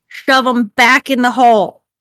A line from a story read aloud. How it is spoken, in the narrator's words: Mirak shouts